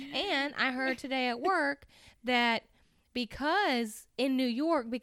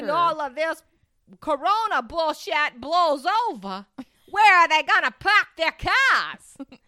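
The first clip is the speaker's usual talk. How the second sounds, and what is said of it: Loud New York-style voice. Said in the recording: “I love how you get louder. Now, that is true to the language of a New Yorker.”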